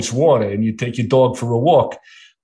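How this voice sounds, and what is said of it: Put-on New York accent. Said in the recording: “it's taken me a long time to just say water without a New York accent ... I've lost that accent”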